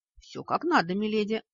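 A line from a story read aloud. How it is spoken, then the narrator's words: Brisk, evasive. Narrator (Russian): бодро отозвался он, стараясь не смотреть мне в глаза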